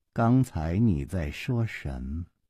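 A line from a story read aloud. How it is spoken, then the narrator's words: Slow drawl. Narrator (Chinese): 公平慢吞吞地说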